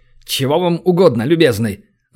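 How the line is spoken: Irritated older man. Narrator (Russian): Раздраженно спросил пожилой мужчина

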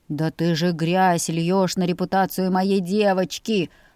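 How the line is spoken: Growled, father. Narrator (Russian): прорычал папа

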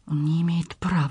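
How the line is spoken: Whispered. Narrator (Russian): шептала

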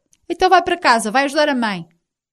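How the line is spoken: Shouting. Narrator (Portuguese): Rino deu-lhe uma bofetada e gritou

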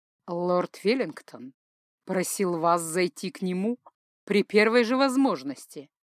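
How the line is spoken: Velvety male voice. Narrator (Russian): бархатистым голосом проговорил мужчина

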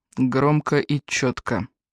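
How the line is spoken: Dry reply. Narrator (Russian): сухо ответил Фрэнк

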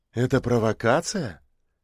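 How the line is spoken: Thoughtful question. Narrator (Russian): задумчиво спросила она

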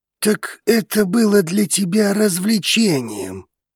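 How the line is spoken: Angry indignant growl. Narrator (Russian): зло рыкнул Драгос, запыхтев от негодования

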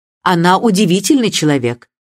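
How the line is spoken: Impatient. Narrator (Russian): нетерпеливым тоном сказала миссис Бантри

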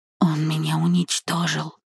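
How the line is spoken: Trembling whisper. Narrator (Russian): прошептала дрожащим голосом

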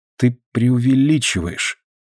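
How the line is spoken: Quiet. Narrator (Russian): тихо проговорила

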